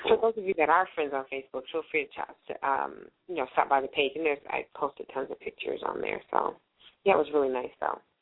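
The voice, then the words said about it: Slightly hoarse, drained voice. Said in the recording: “You sound a little drained. ... my voice is just a little hoarse ... my throat is a little dry”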